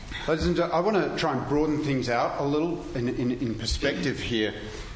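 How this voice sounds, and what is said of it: Australian accent. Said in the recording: “You can tell by my accent that's in Australia.”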